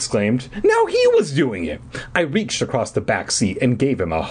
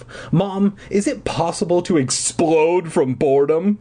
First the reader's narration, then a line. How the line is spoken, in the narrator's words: I moaned